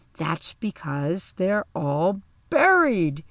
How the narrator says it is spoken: Kim Lewis exclaimed

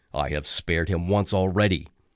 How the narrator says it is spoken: Zeus grumbled

